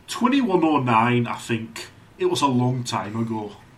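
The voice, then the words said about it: Put-on Scottish-Northern English accent. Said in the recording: “What is that, Scottish? ... It's sort of Scottish, sort of Northern English. ... It's a Lamplight accent.”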